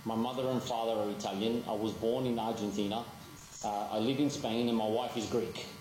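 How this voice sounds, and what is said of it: Australian accent. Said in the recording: “It's an Australian accent, just so everybody knows. It's an Australian accent.”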